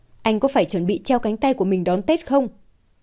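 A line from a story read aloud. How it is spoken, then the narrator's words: Angry, irritated. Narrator (Vietnamese): Mạc Đình Kiên với một sự tức giận, bực bội trong giọng điệu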